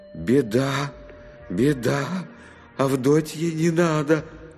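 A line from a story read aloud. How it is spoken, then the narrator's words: Hoarse, straining yell. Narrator (Russian): Надрывая горло, сипло орал он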